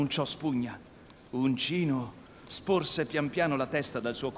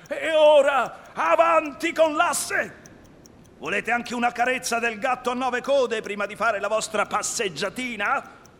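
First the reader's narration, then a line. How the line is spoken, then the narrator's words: Pitiful crying out. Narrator (Italian): gridando pietosamente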